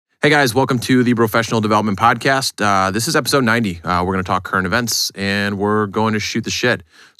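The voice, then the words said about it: Tired, drained-sounding voice. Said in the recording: “Sorry if I sound tired. ... I'm fucking just absolutely drained.”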